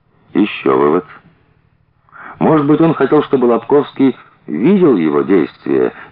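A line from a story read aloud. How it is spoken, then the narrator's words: Uncertain. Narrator (Russian): неуверенно сказал Смирнов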